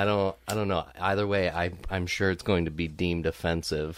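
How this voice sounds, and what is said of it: Usual voice. Nothing is said of it.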